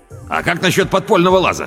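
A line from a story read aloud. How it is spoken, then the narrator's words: Shouting. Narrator (Russian): крикнул Педро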